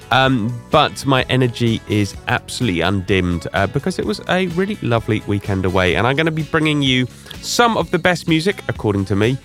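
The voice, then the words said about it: Slightly congested voice from cold. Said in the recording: “the sort of remnants of a cold you can possibly hear in my voice”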